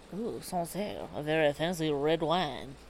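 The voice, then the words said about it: Put-on French accent. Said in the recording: “Do you like my French accent?”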